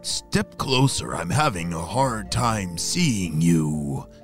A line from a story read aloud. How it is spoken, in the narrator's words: croaked the bullfrog